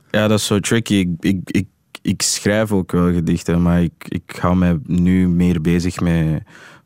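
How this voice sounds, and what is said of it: Flemish with English accent, English-style R. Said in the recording (Dutch): “je hoort eigenlijk een Engelstalig accent in het Vlaams. Waardoor dat mijn R'en dus zo uitkomen.”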